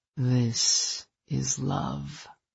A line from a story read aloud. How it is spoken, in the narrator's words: he murmured